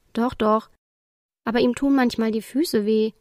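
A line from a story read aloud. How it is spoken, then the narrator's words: Plain. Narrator (German): antwortete Toni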